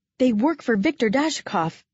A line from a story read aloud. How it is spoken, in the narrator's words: I gasped out